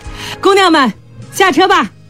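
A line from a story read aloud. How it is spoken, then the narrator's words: Shouting. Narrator (Chinese): 杨自胜抬头朝车上喊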